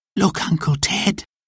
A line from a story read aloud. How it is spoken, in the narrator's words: whispered Jack